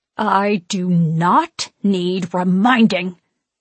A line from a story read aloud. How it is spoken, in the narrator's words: she hisses